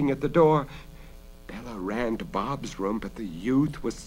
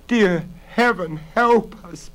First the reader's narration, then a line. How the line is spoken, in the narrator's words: Bella sobbed